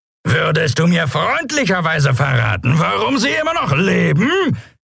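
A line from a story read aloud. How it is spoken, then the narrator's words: Roaring over wind noise. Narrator (German): brüllte er gegen das Tosen des Windes und das Lärmen der Schubdüsen an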